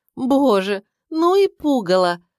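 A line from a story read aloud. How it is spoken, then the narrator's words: Groaning. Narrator (Russian): простонала она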